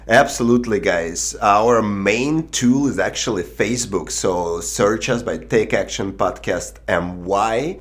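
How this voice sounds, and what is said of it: Speaks English with a noticeable accent. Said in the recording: “cannot understand my accent”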